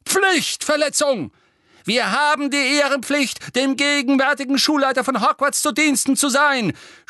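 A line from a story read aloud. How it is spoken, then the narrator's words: Frail old man shouting. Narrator (German): schrie ein gebrechlich wirkender alter Zauberer, in dem Harry Dumbledores Vorgänger Amando Dippet erkannte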